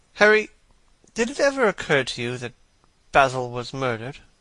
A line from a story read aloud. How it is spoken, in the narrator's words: Lord Henry yawned